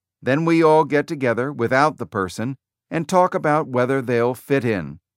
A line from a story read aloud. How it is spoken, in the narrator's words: Jobs said